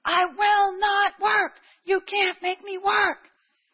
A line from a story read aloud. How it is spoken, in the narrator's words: He kept screaming the same thing